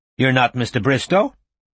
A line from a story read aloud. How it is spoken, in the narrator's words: she said brightly